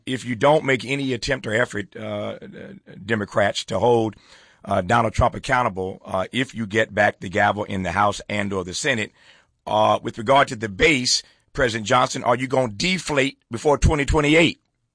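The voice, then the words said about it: Imitates another person's voice. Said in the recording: “do my best Jesse Jackson impersonation.”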